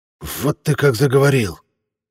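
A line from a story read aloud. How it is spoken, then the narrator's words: Worked-up hiss. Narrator (Russian): Накручивая самого себя, прошипел Масуд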